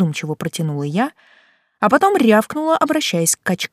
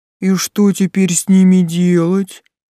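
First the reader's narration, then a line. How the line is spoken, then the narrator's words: Big man's booming rumble. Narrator (Russian): прогудел здоровяк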